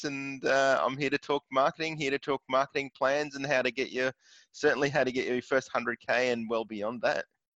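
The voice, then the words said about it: Australian accent. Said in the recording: “I'm detecting an Aussie accent”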